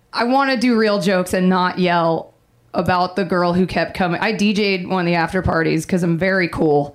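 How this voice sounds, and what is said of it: Hoarse voice. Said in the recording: “which is why I'm hoarse.”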